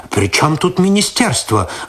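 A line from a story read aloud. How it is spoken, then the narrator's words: Irritated. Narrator (Russian): раздраженно ответил тот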